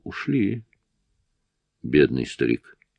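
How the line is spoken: Sighing. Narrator (Russian): Я вздохнул

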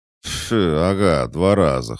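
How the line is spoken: Chuckling. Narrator (Russian): хохотнул Толик

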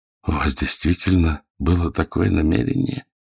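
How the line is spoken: Barely audible, horrified question. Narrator (Russian): Еле слышным голосом осведомился, как человек, охваченный ужасом при мысли о том, чего он лишился по причине своей глупости и греховности

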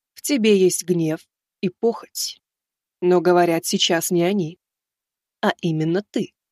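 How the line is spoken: Calm. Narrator (Russian): спокойно сказала Юстиция

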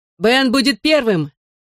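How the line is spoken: Shout. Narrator (Russian): крикнул я

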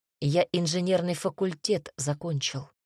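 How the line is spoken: Calm reply. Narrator (Russian): спокойно ответил мой супруг

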